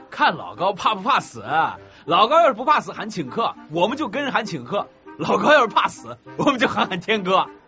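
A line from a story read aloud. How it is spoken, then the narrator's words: Boys laughing, shouting. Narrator (Chinese): 旁边俩男生笑着叫道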